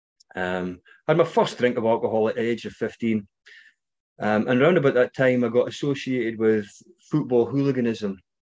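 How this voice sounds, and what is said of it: Scottish accent. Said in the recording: “you might recognize my accent, maybe not. I'm from Scotland.”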